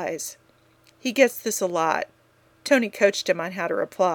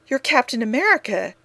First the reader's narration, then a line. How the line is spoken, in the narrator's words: she blurts